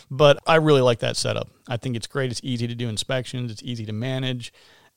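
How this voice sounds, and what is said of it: Hoarse voice. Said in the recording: “Excuse my hoarse voice here. ... I got a little seasonal allergy thing going on here”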